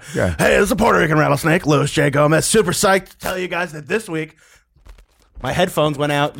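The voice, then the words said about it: Impression of Luis J. Gomez. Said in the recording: “do his voice? ... Can you do it as me?”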